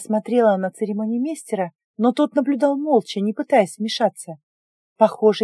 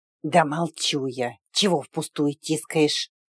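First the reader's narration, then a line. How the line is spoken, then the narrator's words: Sudden faint hissing female voice. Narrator (Russian): Вдруг прошипел в моей голове едва слышный женский голос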